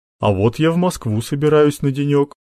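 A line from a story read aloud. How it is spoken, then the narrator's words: Father's wry grunt. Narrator (Russian): хмыкнул папа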